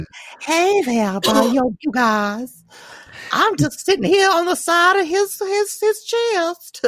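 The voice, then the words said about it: Silly older woman character voice. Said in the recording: “did the voice ... you sound like the pedophile from Family Matters ... It's supposed to be like an older woman”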